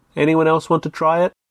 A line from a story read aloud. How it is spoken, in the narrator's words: She said loudly